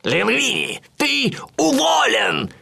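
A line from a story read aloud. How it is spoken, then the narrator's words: Knacker shouting. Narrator (Russian): крикнул живодер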